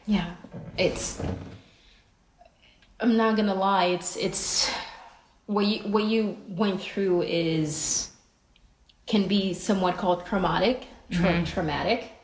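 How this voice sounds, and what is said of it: Noticeable accent. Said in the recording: “My accent is coming out.”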